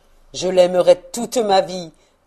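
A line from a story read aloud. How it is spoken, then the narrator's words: Exclaiming. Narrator (French): s'écria-t-il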